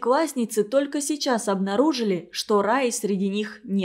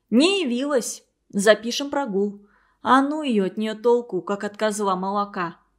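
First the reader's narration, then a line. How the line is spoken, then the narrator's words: Grumbling. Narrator (Russian): проворчала Лариса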